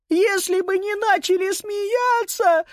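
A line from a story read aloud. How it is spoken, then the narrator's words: Sudden sobbing. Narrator (Russian): Вдруг зарыдала Сузи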